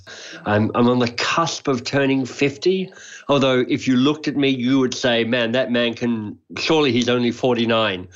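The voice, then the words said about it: Australian accent. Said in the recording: “you may be able to hear it in my accent. I'm Australian by birth.”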